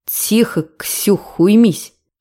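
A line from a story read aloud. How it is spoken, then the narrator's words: Growling. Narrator (Russian): зарычал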